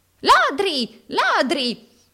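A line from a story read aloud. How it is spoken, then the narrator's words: Shrieking moneylender. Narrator (Italian): strillò l'usuraio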